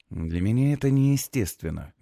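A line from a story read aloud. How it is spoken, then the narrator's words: Gentle objection. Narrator (Russian): мягко возражаю я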